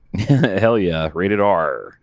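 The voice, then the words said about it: Pretty good pirate accent. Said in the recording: “That was my pirate accent. ... Oh, that's pretty good.”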